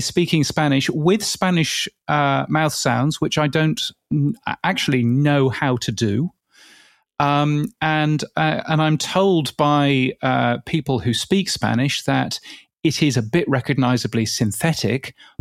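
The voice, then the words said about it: Posh English accent. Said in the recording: “my hoity-toity English accent ... your accent, because, you know, it's very identifiably English”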